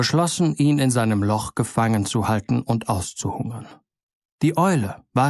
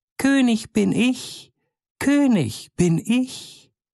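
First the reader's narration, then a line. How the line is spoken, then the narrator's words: Small high voice calling. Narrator (German): Der Kleine ohne Namen ... rief mit seiner feinen Stimme heraus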